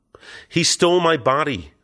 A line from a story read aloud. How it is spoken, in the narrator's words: I cried